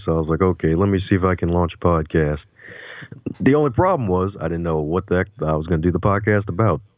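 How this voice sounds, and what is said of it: Radio voice. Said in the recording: “folks telling me I got this radio voice.”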